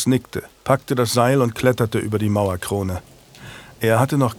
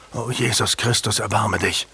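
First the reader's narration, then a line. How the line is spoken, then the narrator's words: Gasped. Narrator (German): keuchte Julian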